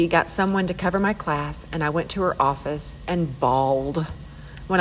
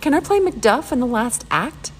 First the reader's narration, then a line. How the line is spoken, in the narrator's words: Danny pleaded